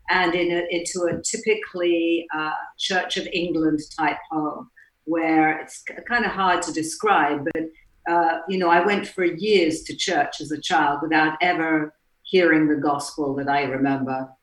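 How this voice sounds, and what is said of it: English accent. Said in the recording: “I was brought up in England, as you can probably tell by my accent,”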